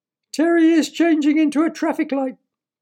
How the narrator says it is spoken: wailed Terry's mother

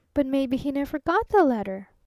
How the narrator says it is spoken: protested the Traveling Salesman, buckling frantically

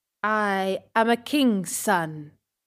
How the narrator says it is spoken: he said

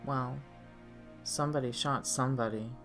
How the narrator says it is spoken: Sandra muttered

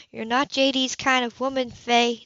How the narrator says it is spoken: the older woman said gently

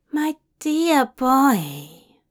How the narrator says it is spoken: Zira cooed softly

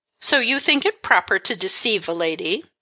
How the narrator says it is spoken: she inquired scornfully

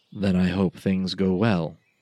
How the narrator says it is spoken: Navar said with a little sigh

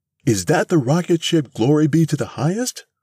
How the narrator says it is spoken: cried Mrs

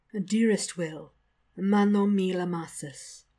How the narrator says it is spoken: sighs ecstatically

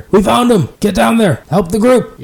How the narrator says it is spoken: a bear yelling down and seeming to be directing troops

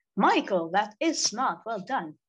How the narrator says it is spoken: Laura exclaimed, impressed by her brother's sudden dash of ingenuity

